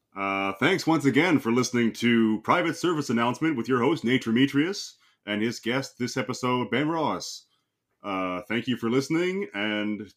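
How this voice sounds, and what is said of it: Radio announcer voice. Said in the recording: “your famous radio host announcer voice”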